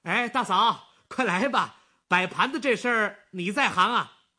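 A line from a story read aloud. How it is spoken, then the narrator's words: Calling out. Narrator (Chinese): 王一民对跑进东屋的石玉芳喊起来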